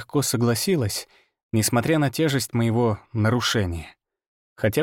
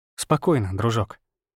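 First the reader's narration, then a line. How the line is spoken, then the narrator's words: Soft near-whisper. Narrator (Russian): сказал я тихо, опуская голос до мягкого, почти шепотного тона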